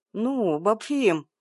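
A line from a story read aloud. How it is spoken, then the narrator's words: Moan. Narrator (Russian): простонал Миша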